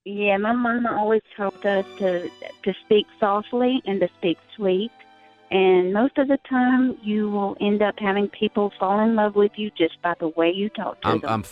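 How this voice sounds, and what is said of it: Sweet Southern drawl. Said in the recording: “Southern drawl ... It's like margarine dripping out of my ears right now ... So, so nice.”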